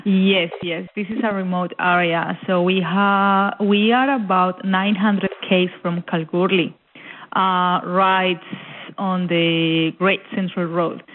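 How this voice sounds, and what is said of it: Colombian-accented English. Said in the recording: “I noticed an accent. And you are from Colombia.”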